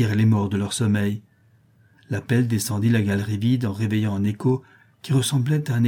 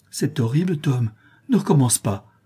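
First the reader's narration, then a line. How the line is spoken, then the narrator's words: Exclaimed. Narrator (French): s'écria Becky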